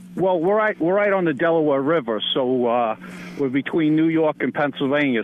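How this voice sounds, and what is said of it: Noticeable regional American accent. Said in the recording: “did you catch that accent there?... We can tell where he's from.”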